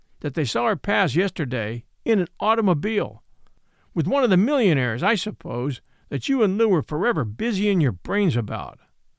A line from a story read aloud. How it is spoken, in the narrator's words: he said harshly